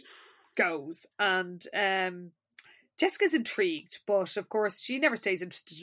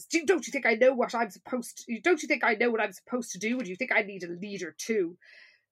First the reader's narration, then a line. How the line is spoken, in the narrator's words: Miss Dalton snaps and says